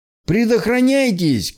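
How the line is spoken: Shouted. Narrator (Russian): крикнул нам еще кто-то

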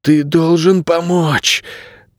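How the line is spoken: Hoarse rasp. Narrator (Russian): прохрипел Найрат

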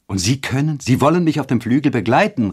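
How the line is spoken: Joyful exclamation. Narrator (German): rief Eduard, dem die Augen vor Freude glänzten

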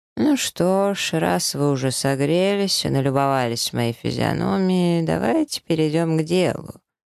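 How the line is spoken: Lazy. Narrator (Russian): лениво говорит артефактор

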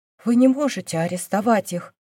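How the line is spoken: Elder monk's whisper. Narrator (Russian): прошептал старший монах

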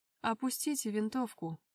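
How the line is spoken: Ingratiating, insinuating. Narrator (Russian): вкрадчиво заговорил Жоржоляне

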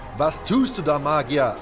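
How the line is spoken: Calling out. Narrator (German): rief

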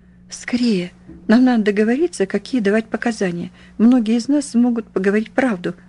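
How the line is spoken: Hoarse rasp. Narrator (Russian): прохрипела

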